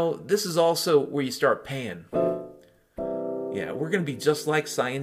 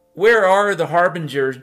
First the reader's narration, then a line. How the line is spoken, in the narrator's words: Jing yelled